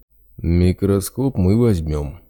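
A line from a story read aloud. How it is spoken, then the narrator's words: Menacing big man. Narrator (Russian): грозно сообщил торговцу здоровяк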